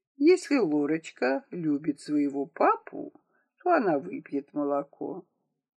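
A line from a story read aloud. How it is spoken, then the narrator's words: Doctor speaking calmly. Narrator (Russian): доктор спокойно говорил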